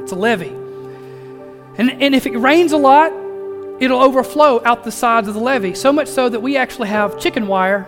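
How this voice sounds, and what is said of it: Southern country dialect. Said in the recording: “I'm talking country right now, y'all ... Country boy through and through.”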